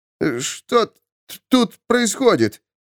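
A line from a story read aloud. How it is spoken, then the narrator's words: Stammering, forced out. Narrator (Russian): Запинаясь, выдавил он из себя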